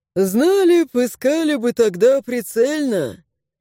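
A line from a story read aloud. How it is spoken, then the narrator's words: Sighing. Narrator (Russian): Вздохнул Гаррет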